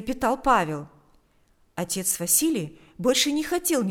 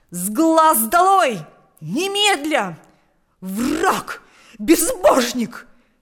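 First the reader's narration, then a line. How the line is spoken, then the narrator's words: Furious shouting. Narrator (Russian): кричал он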